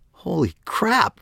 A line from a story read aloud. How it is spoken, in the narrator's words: Megan exclaimed, barely squelching a yelp